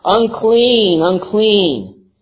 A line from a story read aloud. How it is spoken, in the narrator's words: began calling out loudly